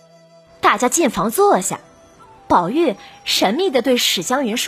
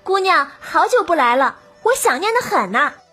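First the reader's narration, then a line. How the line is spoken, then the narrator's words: Warm, smiling. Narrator (Chinese): 他笑着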